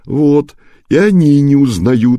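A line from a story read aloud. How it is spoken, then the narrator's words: Laughing stranger. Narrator (Russian): рассмеялся незнакомец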